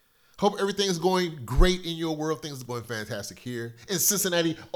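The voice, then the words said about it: Sick, sniffly, scratchy voice. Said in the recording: “A little sniffle... I've been a little bit under the weather... You might hear it in my voice... cold, scratchy throat, sinus stuff”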